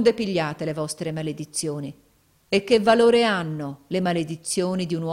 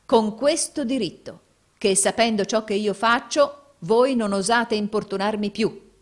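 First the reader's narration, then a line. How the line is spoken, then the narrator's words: Plain. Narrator (Italian): disse Nicola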